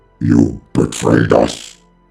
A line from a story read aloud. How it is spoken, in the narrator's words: bellowed Rylanor